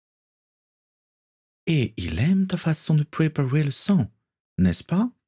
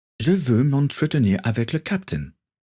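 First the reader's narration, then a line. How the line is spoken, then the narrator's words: Plain. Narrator (French): répondit Denis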